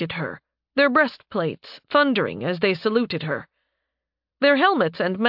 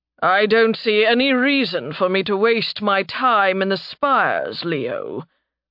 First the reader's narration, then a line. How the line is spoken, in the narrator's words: the deep baritone of her grandfather rumbled